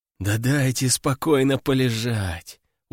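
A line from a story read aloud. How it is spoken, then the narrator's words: Tired mumble. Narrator (Russian): устало пробубнил я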